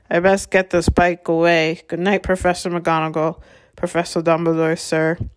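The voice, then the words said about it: Very muffled voice. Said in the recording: “in a very muffled voice”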